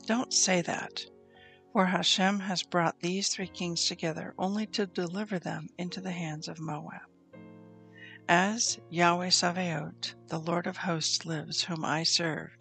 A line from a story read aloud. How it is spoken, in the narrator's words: Elisha answered